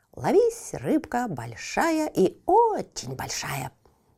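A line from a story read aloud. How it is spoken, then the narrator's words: Cheerful chanting. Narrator (Russian): приговаривала она, весело прищуриваясь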